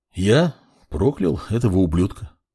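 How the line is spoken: Calm reply. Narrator (Russian): спокойно ответил мак

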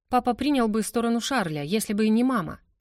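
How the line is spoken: Rapid chatter. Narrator (Russian): тараторила она

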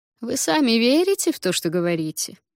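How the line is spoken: Gentle, as to child. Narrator (Russian): Ласково, как с ребенком, заговорил он

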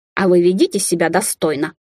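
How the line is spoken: Snorting. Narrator (Russian): фыркнула лис

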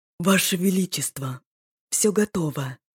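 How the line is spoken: Whispered report. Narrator (Russian): шепотом донес Динвар, восторженно

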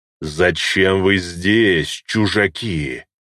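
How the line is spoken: Guttural dragon growl. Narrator (Russian): гортанно прорычал дракон

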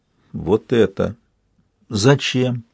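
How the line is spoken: Heavy sigh. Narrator (Russian): Он тяжело вздохнул

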